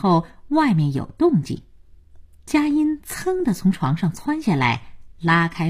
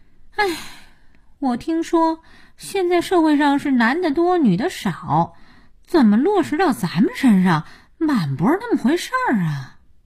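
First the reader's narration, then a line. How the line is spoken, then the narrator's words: Sighing. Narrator (Chinese): 佳音叹气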